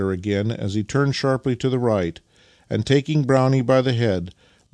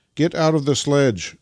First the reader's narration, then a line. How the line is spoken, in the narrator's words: cried Nikita to Vassili